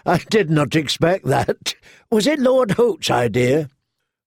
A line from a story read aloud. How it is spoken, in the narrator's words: Rorg began to laugh